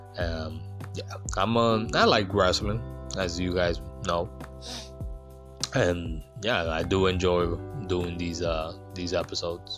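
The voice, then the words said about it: Strained, worn-out voice. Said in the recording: “my voice is kind of thrown off”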